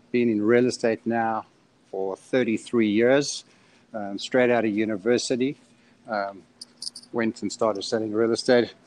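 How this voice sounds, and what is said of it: Slight South African accent. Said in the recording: “I've got a little bit of an accent. I'm originally from South Africa.”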